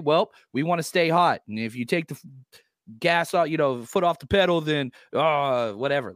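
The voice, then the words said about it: Imitates another person's voice. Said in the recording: “That was a great impersonation of of Kyle”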